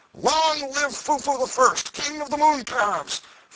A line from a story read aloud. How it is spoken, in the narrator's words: hootings, catcalls, and peals of laughter